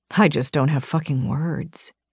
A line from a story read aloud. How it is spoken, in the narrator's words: he whispered